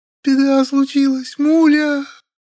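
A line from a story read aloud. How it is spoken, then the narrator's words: Sobbing. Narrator (Russian): Она опять разрыдалась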